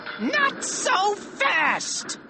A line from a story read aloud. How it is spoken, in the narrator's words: screamed Dr